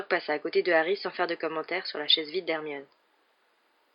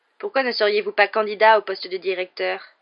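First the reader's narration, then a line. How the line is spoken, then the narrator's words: Loud voice. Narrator (French): dit Malfoy d'une voix forte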